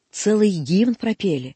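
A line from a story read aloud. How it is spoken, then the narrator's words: Plain. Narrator (Russian): сказал я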